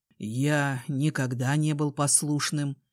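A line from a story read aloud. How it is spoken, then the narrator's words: Hoarse reply with smirk. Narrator (Russian): Хрипло отозвался и усмехнулся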